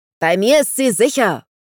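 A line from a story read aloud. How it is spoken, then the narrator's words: Roar. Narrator (German): brüllte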